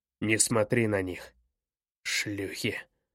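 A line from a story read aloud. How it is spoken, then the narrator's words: Hissed. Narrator (Russian): прошипел он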